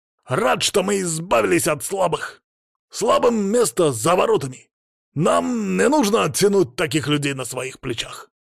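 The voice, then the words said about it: Harsh accented voice spitting words. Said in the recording (Russian): “Голос его был резкий, с характерным акцентом, и говорил он так, будто плевался словами.”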